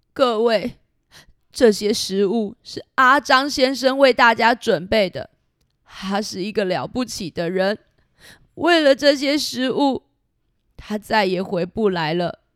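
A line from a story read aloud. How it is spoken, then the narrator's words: Crying while speaking. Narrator (Chinese): 三十郎先生啊，却哭了，一边哭一边说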